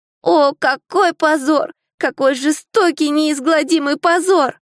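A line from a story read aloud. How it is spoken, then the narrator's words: Ashamed moan. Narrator (Russian): простонал Октопус, со стыдом повесив голову, и Трот видела, как по его щекам покатились большие слезы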